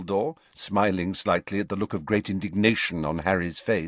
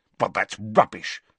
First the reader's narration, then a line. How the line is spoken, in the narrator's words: snapped Harry